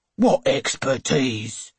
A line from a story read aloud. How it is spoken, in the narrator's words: Captain Jones says sharply